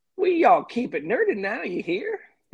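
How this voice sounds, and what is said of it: Put-on Texas accent. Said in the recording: “the best Texas accent you can muster up”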